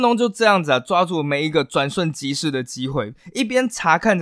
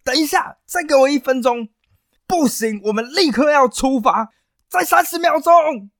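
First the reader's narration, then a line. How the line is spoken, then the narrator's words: Hurried shouting. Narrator (Chinese): 画家就一边临摹，一边大喊着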